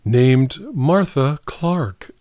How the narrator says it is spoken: said a cool voice

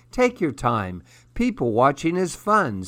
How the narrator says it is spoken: Sydney says

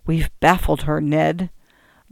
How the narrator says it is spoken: said to me in an undertone

